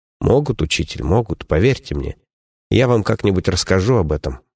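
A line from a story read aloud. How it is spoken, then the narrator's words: Sad wry chuckle. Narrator (Russian): грустно усмехнулся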